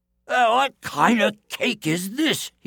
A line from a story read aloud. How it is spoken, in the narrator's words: cried